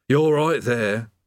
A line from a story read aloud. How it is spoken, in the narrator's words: said the demon mournfully